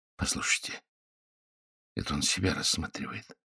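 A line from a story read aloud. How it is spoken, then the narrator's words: Whispering. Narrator (Russian): зашептал Генрих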